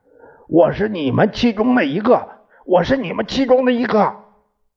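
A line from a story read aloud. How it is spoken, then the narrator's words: Roaring. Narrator (Chinese): 降落时候吼叫着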